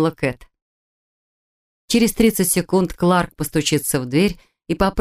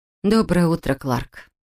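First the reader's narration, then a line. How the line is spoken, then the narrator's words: Sighing. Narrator (Russian): вздохнула она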